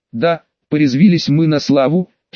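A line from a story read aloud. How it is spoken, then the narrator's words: Giggled. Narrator (Russian): хихикнул Бюс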